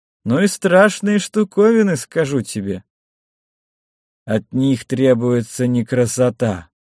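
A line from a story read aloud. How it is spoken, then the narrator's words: Dull, muffled reply. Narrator (Russian): глухо ответил Сухард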